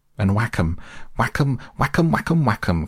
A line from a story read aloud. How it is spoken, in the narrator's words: cried the toad in ecstasy